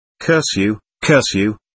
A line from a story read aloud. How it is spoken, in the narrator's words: it snorted as it disappeared